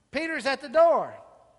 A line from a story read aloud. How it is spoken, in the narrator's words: she was so overjoyed she exclaimed